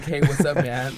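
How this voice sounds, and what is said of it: Put-on American accent. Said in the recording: “With an American accent.”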